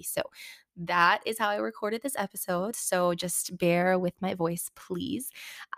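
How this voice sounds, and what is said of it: Slightly raspy voice. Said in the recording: “I am just getting over a little cold and I totally lost my voice, and it's mostly come back, but my voice is a little bit raspy.”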